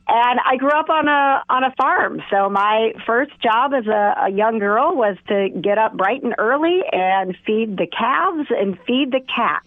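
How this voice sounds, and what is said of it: Distinctive rural Wisconsin voice. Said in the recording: “I grew up in Wisconsin, and even though my voice is very unique here, if you go back to Cuba City, Wisconsin, I have a lot of relatives that sound like me ... this wonderfully unique voice”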